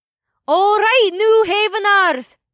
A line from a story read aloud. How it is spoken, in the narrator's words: May called out in her instructor's voice